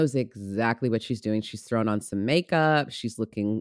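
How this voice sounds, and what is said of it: Usual voice. Nothing is said of it.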